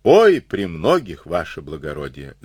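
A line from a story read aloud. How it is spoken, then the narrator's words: Wistful sigh. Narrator (Russian): вздохнул Хренов, слегка затуманившись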